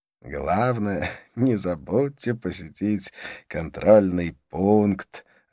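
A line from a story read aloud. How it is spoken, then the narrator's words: Laughing. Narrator (Russian): рассмеялся он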